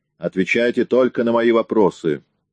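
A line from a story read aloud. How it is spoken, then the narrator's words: Barked. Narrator (Russian): рявкнул Лейси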